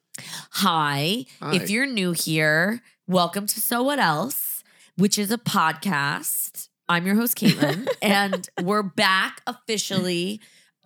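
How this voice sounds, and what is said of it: Hoarse, nasal, scratchy voice. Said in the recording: “I'm a little hoarse today. Can you tell? ... I think I'm very nasal. ... So I sound a little scritchety scratch.”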